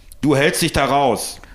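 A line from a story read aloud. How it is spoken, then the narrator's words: Angry roar. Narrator (German): brüllte Norbert seinen Sohn an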